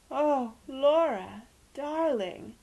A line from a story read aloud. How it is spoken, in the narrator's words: moaned Aunt Celia, who was easily made distraught by catastrophes